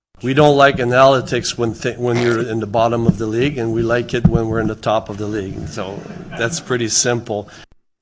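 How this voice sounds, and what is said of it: Heavy French Canadian accent. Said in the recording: “he's obviously got an accent ... It is a very heavy French Canadian accent”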